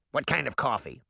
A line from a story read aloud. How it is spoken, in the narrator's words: Mallow Barb snapped